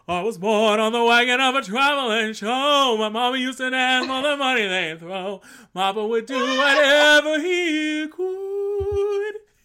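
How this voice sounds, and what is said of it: Imitates another person's singing voice. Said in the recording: “do a mean Cher impersonation”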